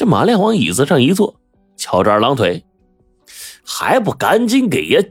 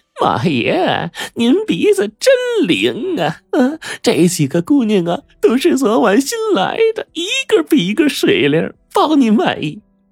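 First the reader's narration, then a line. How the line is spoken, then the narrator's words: Fawning, smiling. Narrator (Chinese): 老鸨子满脸堆笑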